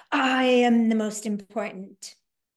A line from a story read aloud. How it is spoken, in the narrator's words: in a victory position, the brain roars